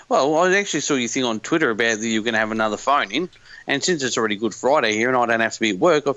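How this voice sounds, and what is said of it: Australian accent. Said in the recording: “I kind of figured that... It's the accent or lack of accent that gives it away... it's the completely neutral accent... It can only be as neutral as that in Australia”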